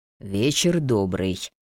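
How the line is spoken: Deep bass greeting. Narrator (Russian): густым басом поздоровался он

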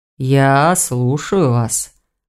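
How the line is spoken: Muffled, hollow voice. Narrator (Russian): глухо сказал Гварен

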